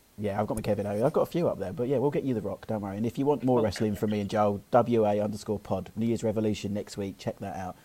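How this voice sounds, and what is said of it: London accent. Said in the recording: “my London accent coming out?”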